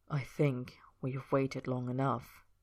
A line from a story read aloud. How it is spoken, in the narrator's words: Roy said quietly